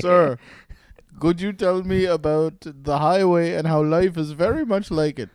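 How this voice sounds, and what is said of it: Attempted African accent sounding Indian. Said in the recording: “you went straight Indian ... I'm trying to do an African accent, but I just can't”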